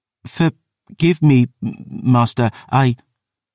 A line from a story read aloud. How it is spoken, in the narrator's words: bowed her head, stammering